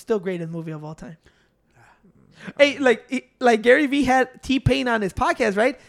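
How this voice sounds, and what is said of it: Usual voice. Nothing is said of it.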